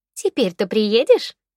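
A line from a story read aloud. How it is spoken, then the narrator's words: Pleased question. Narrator (Russian): довольным голосом спросила подруга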